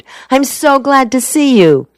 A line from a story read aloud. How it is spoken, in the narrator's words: she exclaimed